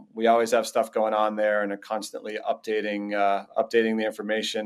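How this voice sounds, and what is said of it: Slight Boston accent. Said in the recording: “That Boston accent coming out a bit.”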